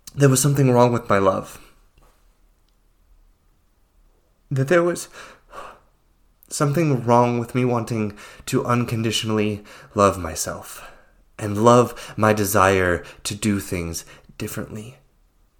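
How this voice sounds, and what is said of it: Emotional, choked-up voice. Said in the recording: “I'm getting a little emotional here”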